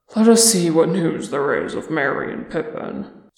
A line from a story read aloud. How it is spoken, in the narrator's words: sighed Thorin